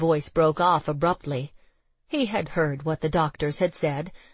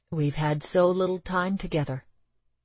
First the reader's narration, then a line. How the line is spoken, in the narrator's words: he simply said, quietly